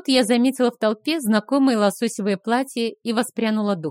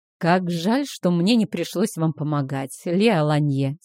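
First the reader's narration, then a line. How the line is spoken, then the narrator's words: Mocking sigh. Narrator (Russian): С усмешкой вздохнул Говард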